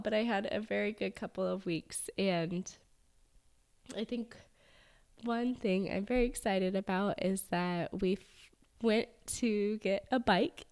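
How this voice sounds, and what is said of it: Congested voice. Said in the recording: “I sound a little congested”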